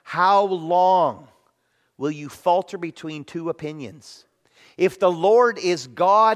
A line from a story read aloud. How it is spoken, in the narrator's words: he says